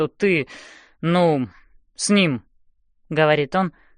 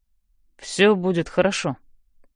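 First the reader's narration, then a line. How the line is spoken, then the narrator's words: Quiet reply. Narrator (Russian): так же тихо отвечает он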